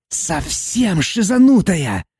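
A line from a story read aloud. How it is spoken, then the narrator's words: Shrill shriek. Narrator (Russian): взвизгнул Валафар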